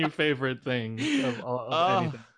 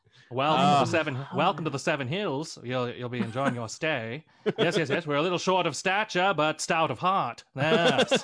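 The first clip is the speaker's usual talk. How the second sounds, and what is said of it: Put-on Mid-Atlantic accent. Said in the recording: “are Mid-Atlantic ... perfection.”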